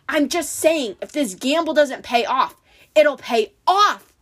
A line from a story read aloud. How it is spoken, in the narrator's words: Luke snapped